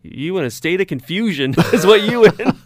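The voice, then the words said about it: Imitated Southern accent. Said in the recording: “her southern accent”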